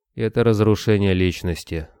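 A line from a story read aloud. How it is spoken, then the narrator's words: Gloomy response. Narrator (Russian): мрачно отозвался Борода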